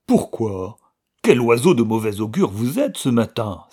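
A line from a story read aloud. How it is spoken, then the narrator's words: Displeased exclamation. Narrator (French): s'exclama Georges, avec un mécontentement évident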